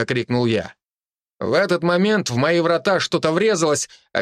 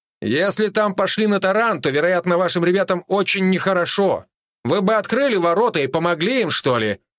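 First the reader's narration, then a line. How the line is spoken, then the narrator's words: Loud. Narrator (Russian): сказал я громко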